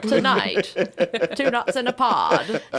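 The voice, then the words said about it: 1950s-style radio announcer voice. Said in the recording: “That's my radio voice. ... I'm just kind of a 1950s thing going.”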